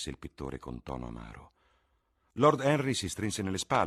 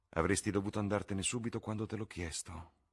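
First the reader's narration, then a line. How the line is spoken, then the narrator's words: Murmured. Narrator (Italian): mormorò il pittore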